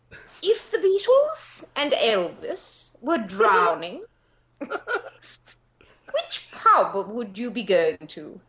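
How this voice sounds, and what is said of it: Put-on English accent. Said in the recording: “Do it in English. Go on, do an English accent. You're supposed to be an actress.”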